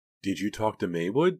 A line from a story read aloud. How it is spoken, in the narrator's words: Pam asked calmly